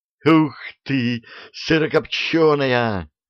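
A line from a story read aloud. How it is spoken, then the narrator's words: Joyful squeal. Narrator (Russian): радостно взвизгнул он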